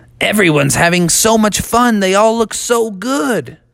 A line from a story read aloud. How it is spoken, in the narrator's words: exclaimed Froggy